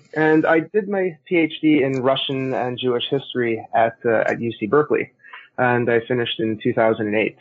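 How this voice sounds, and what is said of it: Canadian accent. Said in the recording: “if my accent sounds funny, it's because I'm Canadian”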